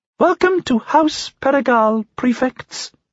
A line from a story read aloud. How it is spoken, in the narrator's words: said in a squeaky voice